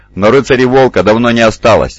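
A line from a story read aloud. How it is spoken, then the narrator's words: Sharp reply. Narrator (Russian): резко ответил Астелян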